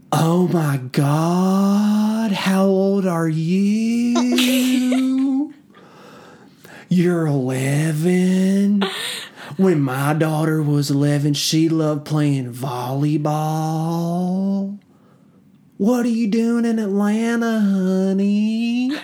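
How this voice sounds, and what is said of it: Imitated woman's regional accent. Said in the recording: “in the exact voice, in the exact dialect, accent that I've been saying to Kiana for years”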